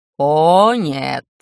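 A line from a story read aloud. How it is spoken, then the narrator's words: Demon's angry growl. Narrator (Russian): В голосе демона послышался не обычный шутливый протест, а самое настоящее злобное рычание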